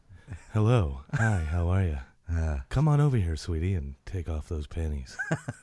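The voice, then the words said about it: Sultry, seductive voice. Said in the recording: “it's so really sultry.”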